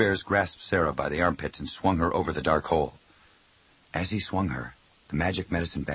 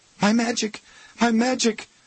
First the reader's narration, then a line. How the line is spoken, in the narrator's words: Sarah cried, struggling in Two Bears' arms